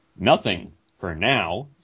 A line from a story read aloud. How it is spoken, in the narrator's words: snapped Herc Armstrong